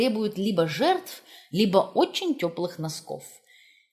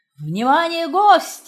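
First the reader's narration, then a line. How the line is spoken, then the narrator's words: Roared. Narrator (Russian): проревел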